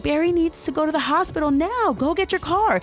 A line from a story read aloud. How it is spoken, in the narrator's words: Fisher was yelling